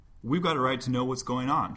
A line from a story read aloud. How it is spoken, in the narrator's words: cried